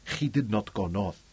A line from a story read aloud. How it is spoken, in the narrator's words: Camacho agreed uneasily